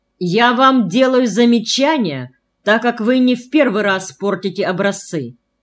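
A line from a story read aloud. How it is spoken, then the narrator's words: Stern. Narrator (Russian): строго произнесла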